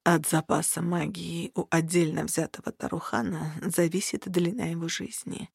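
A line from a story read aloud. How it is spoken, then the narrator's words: Hoarse man, after pause. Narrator (Russian): осипшим голосом проговорил мужчина спустя несколько секунд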